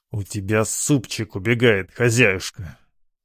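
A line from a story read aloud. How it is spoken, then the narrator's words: Through clenched teeth. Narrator (Russian): процедил я сквозь стиснутые зубы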